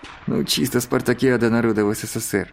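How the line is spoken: Muttered. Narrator (Russian): пробормотал Войтюк

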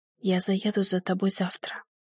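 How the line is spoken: Breathless whisper. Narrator (Russian): тяжело дыша, он коснулся моего лба губами и шепнул

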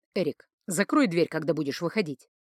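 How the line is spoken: Calm tone. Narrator (Russian): спокойным тоном произнес Джейка

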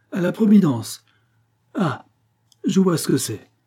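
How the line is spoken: Exclaimed. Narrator (French): s'écria mademoiselle Angélique

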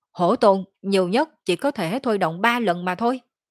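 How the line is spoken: Shouted. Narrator (Vietnamese): Lại có đội viên quát

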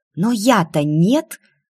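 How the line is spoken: Hissed. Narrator (Russian): прошипела я

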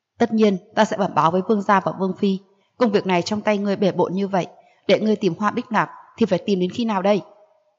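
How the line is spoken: Angry. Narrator (Vietnamese): Phượng Chi Giao tức giận trừng mắt nước hắn một cái rồi nói

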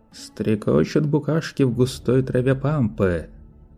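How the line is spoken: Humming a tune. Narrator (Russian): Манео замурлыкал мотив себе под нос

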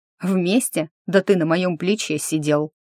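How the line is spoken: Snorting. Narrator (Russian): фыркнула я

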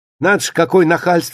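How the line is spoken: Loud shouting. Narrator (Russian): кричала она на весь двор

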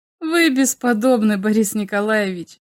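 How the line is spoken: Laughing. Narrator (Russian): сказал он, продолжая смеяться

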